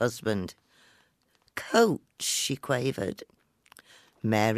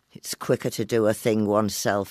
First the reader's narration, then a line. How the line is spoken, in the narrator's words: he grumbled